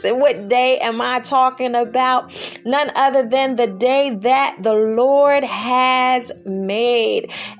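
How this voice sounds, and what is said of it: Excited, energetic voice. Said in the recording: “I am so excited. I hope that you can hear it in my voice already.”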